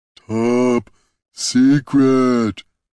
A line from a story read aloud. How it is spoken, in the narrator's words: rumbled Brunt